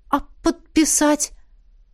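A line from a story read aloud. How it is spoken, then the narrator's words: Confused question. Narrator (Russian): спросила растерянно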